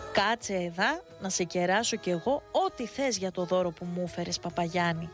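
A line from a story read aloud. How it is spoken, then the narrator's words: Awkward, bewildered smile. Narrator (Greek): σαστισμένος από την αντίδραση του ιερωμένου, χαμογέλασε λίγο αμήχανα και είπε στον παπά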